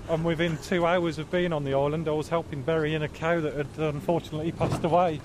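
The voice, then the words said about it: Midland English accent. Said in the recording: “A bit of Midland accent in there somewhere”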